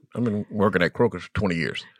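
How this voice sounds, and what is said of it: Imitates another person's voice. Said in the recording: “my her uncle impersonation”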